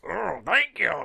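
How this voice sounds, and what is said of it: Imitates a movie judge character's voice. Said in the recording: “He kept doing the voice of the guy from the movie. ... of the judge.”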